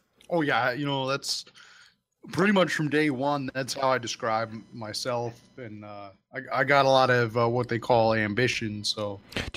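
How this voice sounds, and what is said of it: Canadian Midwest-like dark elf accent. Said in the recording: “the accent? Is that Canadian Midwest? ... Dark elf”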